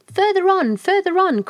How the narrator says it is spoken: cried Hoodoo

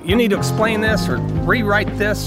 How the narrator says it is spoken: editors were yelling

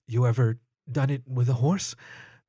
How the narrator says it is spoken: He breathed

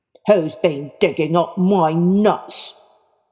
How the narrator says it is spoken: And he shouted into the hole

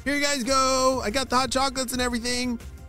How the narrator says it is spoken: shouted Mr

